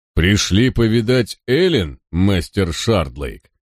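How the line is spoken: Deep growl. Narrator (Russian): прорычал он басом

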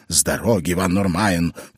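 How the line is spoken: Growling. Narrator (Russian): прорычал он

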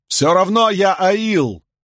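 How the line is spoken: Shouting. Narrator (Russian): выкрикнул Льюин

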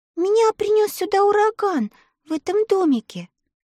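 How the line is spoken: Timid reply. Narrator (Russian): робко ответила Элли

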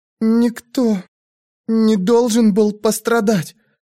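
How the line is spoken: Breathless, forced out. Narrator (Russian): задыхаясь, выдавила она

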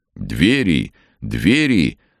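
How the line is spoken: Loud meaningful cry. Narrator (Russian): вдруг громко и многозначительно возопил священник

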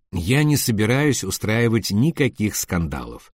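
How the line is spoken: Calm. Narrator (Russian): сказал он спокойно

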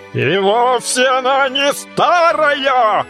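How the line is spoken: Increasingly furious shout. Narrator (Russian): закричал Тру-ля-ля, разъяряясь пуще прежнего

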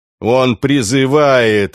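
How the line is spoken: Deep infernal booming bass. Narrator (Russian): инфернальным басом прогудела толстуха

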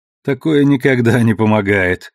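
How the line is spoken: Laughing. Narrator (Russian): рассмеялся Алекс

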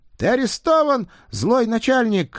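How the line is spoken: Shouting. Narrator (Russian): кричал Егорка

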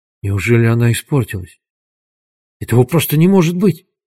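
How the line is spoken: Shocked whisper. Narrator (Russian): прошептал потрясенный Дуглас

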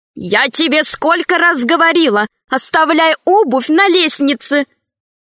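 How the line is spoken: Shouting. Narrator (Russian): крикнула жена

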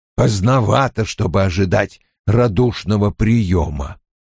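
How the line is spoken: Grumbling. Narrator (Russian): проворчал он

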